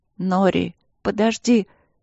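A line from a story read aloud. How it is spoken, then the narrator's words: Hoarse, barely audible. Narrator (Russian): хрипло и едва слышно проговорила Ангелина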